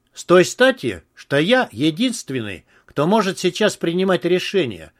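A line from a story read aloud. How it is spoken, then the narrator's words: Calm reply. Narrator (Russian): спокойно ответил Гоголь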